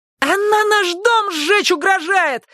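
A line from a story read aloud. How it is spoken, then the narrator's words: Flushed squealing. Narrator (Russian): завизжал раскрасневшийся Хилли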